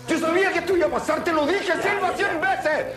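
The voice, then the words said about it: Shouting. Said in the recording (Spanish): “¡No grites!”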